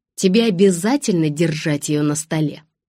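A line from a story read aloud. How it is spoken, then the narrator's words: Sharp, bad-tempered mother. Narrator (Russian): сказала мама резким тоном, свидетельствующим о том, что она в дурном настроении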